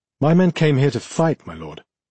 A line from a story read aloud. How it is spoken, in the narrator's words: Count Marvin said, his tone light